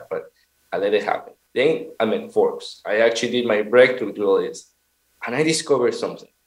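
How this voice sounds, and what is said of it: Peruvian-accented English. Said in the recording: “hear my accent and say, oh, that Peruvian guy”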